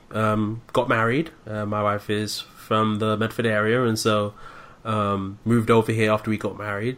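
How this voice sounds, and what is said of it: British London accent. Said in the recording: “You may pick up a bit of an accent. I'm originally from London, born and raised in the UK”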